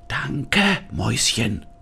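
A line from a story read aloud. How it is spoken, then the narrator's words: Whisper. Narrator (German): flüsterte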